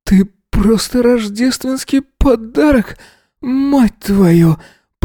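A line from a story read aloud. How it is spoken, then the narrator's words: Trembling moan. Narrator (Russian): Простонал Эзра, дрожа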